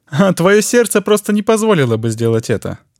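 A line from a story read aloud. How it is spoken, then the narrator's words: Laughing. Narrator (Russian): рассмеялся Бергант Фаллер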